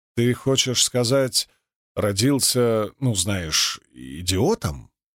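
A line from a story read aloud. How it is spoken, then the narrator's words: Plain. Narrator (Russian): спросил Рлайн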